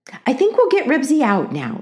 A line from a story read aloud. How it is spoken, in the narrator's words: said Mother cheerfully